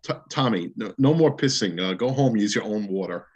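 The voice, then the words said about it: Imitated heavy accent. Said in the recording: “he had this heavy accent.”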